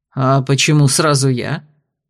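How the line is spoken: Autocrat's snort. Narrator (Russian): фыркнул самодержец

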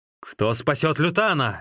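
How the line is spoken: Loud shout. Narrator (Russian): громко крикнул Сун Цзян

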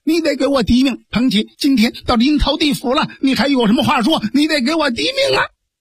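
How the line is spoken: Furious yelling. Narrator (Chinese): 蒋平连打带嚷嚷

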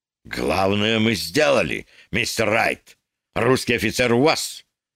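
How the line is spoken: Sharp. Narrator (Russian): резко сказал букинист

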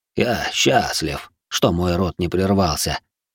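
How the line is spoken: Quiet, smiling. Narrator (Russian): не убирая с лица улыбки, негромко произнес он

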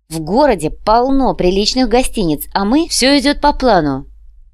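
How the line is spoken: Deliberately loud announcement. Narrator (Russian): намеренно громко объявила Яна

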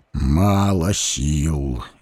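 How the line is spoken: Sigh. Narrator (Russian): вздохнул Муромец

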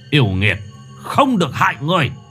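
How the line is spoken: Stern shout. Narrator (Vietnamese): Thầy Hậu quát

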